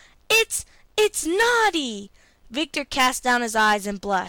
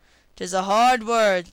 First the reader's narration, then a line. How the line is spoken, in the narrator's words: said Lugui sadly